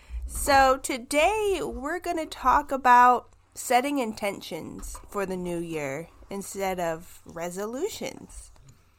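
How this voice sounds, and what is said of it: Nasal, congested voice. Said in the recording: “I have a cold. Hopefully, it doesn't sound too horrible. But yes, I am a bit more nasally today.”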